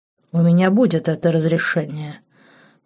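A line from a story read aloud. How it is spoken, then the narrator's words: Cold declaration. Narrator (Russian): холодно заявил Марк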